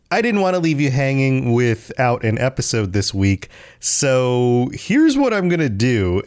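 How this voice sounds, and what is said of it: Voice sounding like a cold. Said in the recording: “I also have come down with a cold recently, so if you hear it in my voice”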